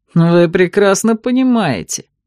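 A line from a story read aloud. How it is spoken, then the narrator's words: Snorted. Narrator (Russian): фыркнул он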